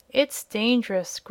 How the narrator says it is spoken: growled Jim, in a stubborn tone

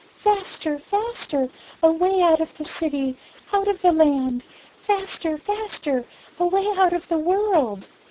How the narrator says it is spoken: she only murmured

